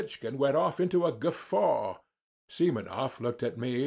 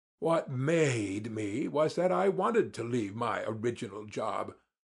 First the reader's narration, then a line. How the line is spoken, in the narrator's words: drawled more than he, hardly able to control myself